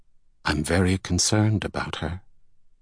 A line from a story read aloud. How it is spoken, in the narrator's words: said in a low tone